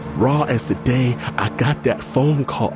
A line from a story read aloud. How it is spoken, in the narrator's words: I wail